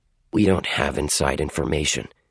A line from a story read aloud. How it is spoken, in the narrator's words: he mumbled